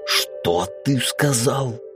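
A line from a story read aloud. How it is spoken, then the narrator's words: Furious hiss. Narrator (Russian): В ярости прошипел Мизраил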